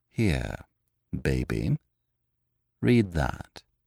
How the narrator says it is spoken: Lupin said very calmly

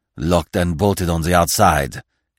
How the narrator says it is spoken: he growled

